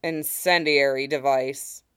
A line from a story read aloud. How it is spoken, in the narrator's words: Fox grunted